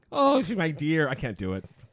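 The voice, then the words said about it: Put-on nerd voice. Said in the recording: “Are you sick too? ... it's my nerd voice. ... It's not working.”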